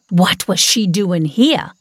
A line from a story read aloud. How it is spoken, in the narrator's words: I snapped, my anger seething